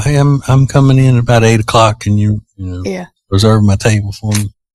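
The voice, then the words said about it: Soft voice imitating another person. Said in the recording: “a good Vince Gill impression ... A little bit. He does. He's real soft like that.”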